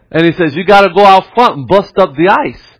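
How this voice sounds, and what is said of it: Impression like an old Italian guy. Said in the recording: “if I'm not doing a good impersonation of him, I apologize, but I got him like an old Italian guy”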